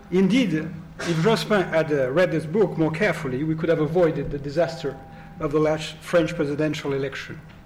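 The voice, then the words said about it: Strong French accent in English. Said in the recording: “with a terrible French accent”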